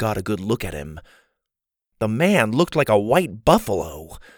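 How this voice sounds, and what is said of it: Usual voice. Nothing is said of it.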